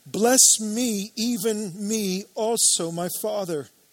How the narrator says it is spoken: he cried out with an exceedingly great and bitter cry and said to his father

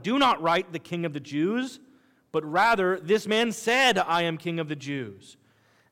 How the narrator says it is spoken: Pilate answered

